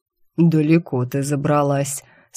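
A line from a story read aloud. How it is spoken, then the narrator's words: Calm unpleasant voice, darkness. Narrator (Russian): спокойно вещал все тот же противный голос в темноте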